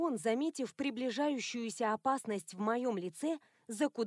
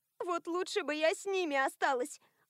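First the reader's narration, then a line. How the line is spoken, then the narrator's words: Sobbing. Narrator (Russian): Альма, кажется, даже всхлипнула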